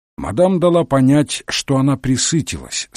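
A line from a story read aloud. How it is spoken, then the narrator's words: Plain. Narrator (Russian): сказал Мегре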